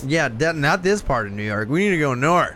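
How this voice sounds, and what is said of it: Put-on accent. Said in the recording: “I do like that accent you're doing. You should save that.”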